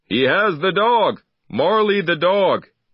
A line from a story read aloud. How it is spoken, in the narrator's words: shouted